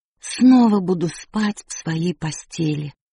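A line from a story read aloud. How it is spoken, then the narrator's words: Joyful announcement. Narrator (Russian): радостно возвестила она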